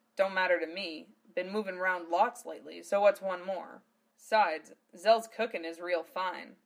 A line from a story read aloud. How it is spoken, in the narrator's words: Val chuckled